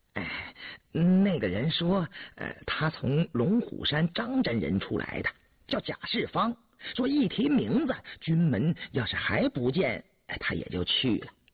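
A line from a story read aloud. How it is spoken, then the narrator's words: Soldier, ingratiating smile. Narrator (Chinese): 那军校 陪笑说道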